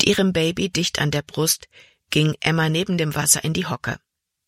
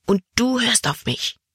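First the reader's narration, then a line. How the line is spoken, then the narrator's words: Angry whisper. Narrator (German): flüsterte sie ärgerlich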